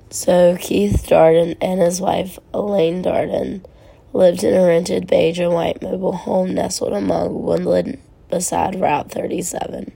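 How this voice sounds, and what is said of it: Sick, off-sounding voice. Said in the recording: “my voice is just bleh. I've been super sick and coming off of that.”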